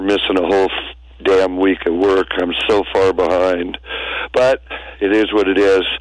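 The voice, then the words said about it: Rough, recovering voice. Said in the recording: “Excuse the voice. I'm still recovering ... still a little rough”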